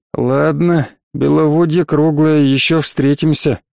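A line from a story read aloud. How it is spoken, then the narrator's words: Spiteful words through teeth. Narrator (Russian): злобно процедил я сквозь зубы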